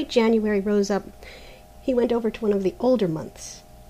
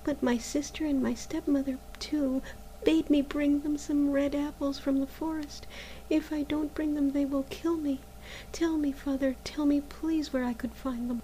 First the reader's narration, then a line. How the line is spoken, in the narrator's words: said Maruschka sadly